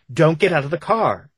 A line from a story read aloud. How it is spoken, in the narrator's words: begged Mo, his voice rising higher